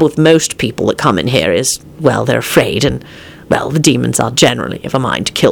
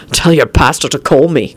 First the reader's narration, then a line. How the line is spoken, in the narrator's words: Quentin snapped